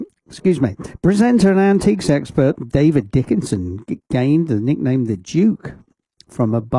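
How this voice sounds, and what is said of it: Usual voice. Nothing is said of it.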